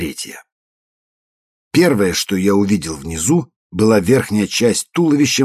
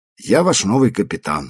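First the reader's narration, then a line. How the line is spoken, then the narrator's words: Calm. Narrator (Russian): спокойно сказал я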